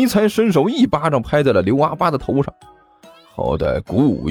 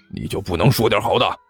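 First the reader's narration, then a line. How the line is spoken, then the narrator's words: Low muttering. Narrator (Chinese): 刘阿八低声嘀咕了一句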